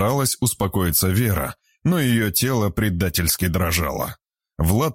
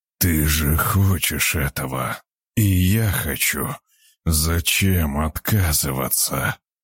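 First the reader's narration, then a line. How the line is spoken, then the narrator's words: Hoarse rasp. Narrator (Russian): прохрипел Влад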